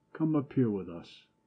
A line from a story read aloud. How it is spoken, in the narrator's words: Peduzzi called tenderly